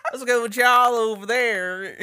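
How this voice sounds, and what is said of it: Put-on drawling Southern US accent. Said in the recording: “down south people, of course, you could tell. They be dragging over. It's like, y'all ... They really talk like that.”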